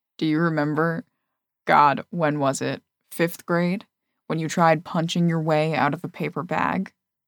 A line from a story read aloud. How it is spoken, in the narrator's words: He chuckles